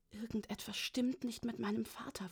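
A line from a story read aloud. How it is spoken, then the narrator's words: Excited whisper. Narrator (German): flüsterte ich ihm aufgeregt zu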